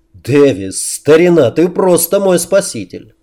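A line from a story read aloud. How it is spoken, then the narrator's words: Exaggeratedly loud delight. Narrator (Russian): Преувеличенно громко выражая свои восторги, Клей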